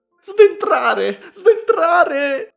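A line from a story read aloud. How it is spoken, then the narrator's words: Shrieking. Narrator (Italian): strillava Elena Ivanovna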